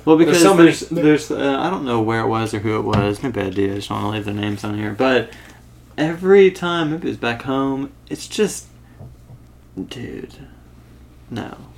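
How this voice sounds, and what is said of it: Slight Texas accent. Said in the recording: “you've got a little bit of a Texas accent. It's not particularly thick, but I can definitely hear it.”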